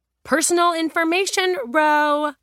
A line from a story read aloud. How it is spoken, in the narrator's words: Julia roared